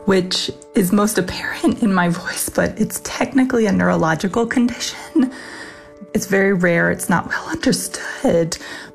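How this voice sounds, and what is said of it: Whispery, hoarse voice cutting out. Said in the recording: “my voice is a little whispery and kind of hoarse and cuts in and out”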